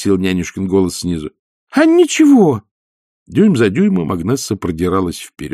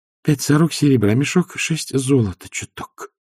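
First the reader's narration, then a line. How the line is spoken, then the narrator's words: Low, half voice. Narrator (Russian): сказала Агнесса вполголоса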